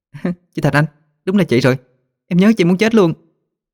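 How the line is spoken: Joyful cry. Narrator (Vietnamese): một cô gái mừng rỡ kêu lên

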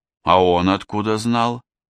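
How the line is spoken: Sighing. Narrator (Russian): Гай вздохнул

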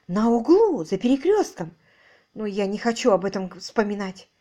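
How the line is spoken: Exclaiming. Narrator (Russian): Воскликнула

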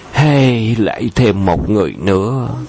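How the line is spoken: Sighing lament. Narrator (Vietnamese): thỉnh thoảng mới nghe có người thở dài than

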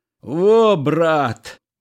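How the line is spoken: Shouting. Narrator (Russian): кричал он

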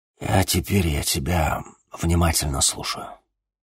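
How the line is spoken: Muttered into ear. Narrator (Russian): буркнул Владимир Семенович в ухо Денису

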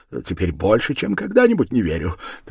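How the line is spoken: Hurried. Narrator (Russian): торопливо сказал Заметов

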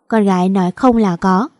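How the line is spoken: Smiling, mocking. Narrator (Vietnamese): Vàng mỉm cười, rồi nói giọng đầy chế giễu

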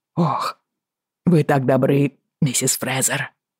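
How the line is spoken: Wheezing rasp. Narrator (Russian): прохрипел он

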